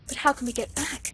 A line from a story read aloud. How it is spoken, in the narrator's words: she gasped